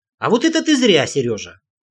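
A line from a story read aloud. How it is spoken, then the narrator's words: Offended sniffing. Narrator (Russian): носом обиженно шмыгнул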